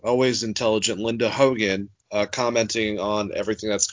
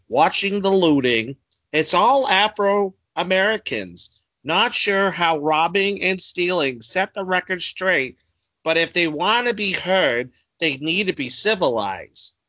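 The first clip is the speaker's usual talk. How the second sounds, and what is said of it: Imitates an entitled Karen voice. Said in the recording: “my best impression of a Karen”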